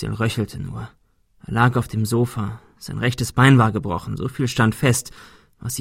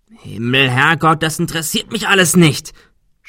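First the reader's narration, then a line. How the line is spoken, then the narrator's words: Shouting. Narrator (German): schrie Adrian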